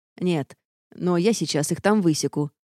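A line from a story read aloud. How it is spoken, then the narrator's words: Grim. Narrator (Russian): мрачно пообещал муж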